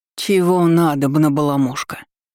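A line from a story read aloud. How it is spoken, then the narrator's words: Sleepy displeased grumble. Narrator (Russian): Недовольно проворчал мой домовой, сонно потирая глаза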